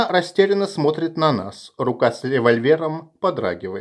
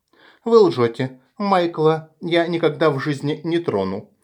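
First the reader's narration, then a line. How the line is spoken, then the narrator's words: Frightened. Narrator (Russian): испуганно говорит Эвелина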